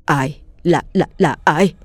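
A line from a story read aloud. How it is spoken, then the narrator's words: Stammering. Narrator (Vietnamese): miệng lắp bắp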